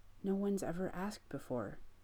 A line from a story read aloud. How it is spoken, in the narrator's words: he whispers